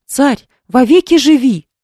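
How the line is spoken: Group exclaiming. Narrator (Russian): воскликнули они

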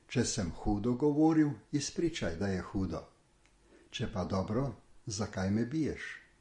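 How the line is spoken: Calm answer. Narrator (Slovenian): Kristus je mirno odgovoril

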